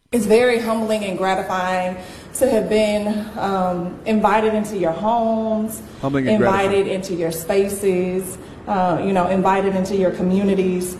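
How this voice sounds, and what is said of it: Southern American drawl. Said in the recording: “this Southern drawl”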